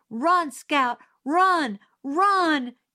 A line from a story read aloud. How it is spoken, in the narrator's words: Jim screamed